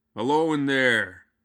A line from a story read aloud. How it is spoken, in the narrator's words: hollered